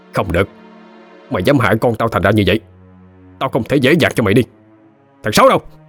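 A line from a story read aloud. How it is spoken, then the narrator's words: Screaming. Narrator (Vietnamese): Kính gào lên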